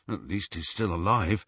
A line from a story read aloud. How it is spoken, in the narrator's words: muttered Ron